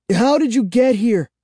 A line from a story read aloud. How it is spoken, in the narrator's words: cried, finding my voice